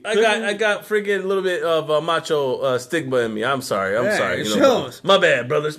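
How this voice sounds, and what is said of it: Imitates another person's voice. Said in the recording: “doing a Macho Man impression”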